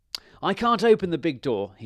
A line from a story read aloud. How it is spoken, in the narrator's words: shouted